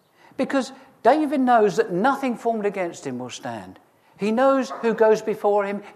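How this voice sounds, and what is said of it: Raised, excited preaching voice. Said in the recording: “my voice is raised and I'm getting excited”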